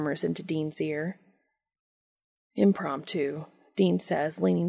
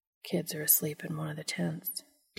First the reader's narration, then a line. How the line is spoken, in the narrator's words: Dean whispers